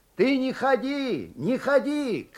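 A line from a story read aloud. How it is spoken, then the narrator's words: Distant shouting. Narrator (Russian): кричал из денника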